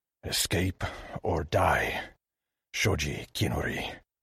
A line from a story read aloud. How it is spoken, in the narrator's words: growled